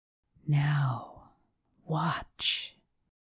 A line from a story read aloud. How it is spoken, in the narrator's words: whispered Thorpe